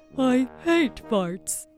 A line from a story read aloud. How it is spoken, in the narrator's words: grumbled the troll